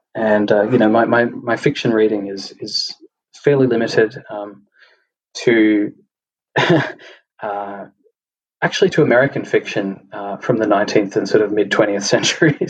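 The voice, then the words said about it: Australian accent. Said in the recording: “obviously from my accent being Australian”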